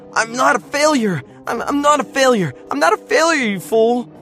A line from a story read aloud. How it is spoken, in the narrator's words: screaming